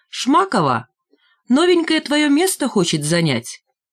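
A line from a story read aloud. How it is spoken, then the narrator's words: Loud shout. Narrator (Russian): громко крикнул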